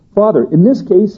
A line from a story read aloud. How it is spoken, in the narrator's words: he cried